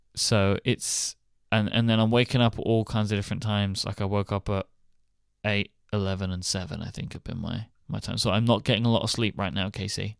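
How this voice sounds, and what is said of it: Sounds very tired. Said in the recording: “I sound bad. I sound super tired”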